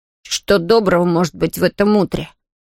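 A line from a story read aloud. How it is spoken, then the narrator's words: Grumbling. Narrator (Russian): проворчал Том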